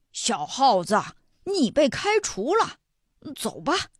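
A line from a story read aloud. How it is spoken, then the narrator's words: Chimpanzee, loud. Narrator (Chinese): 黑猩猩指挥大声说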